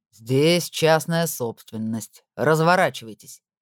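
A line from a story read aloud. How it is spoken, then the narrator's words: Menacing. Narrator (Russian): грозно произнес он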